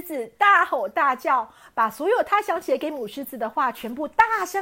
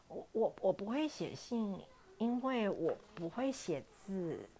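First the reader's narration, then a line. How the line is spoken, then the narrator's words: Tiny quiet voice. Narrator (Chinese): 母狮子小小声的回答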